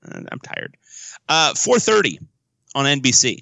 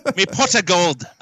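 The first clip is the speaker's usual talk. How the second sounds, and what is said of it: Bad put-on Irish accent. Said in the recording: “That's a bad Irish accent. I should do better.”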